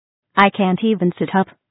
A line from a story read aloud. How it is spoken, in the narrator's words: Romy replied